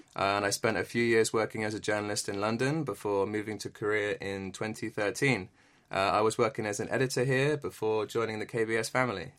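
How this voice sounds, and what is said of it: English accent. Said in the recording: “you're from the UK, and I'm sure a lot of our listeners noticed it in your accent ... I'm from England”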